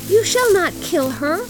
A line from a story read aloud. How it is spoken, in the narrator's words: cried her little daughter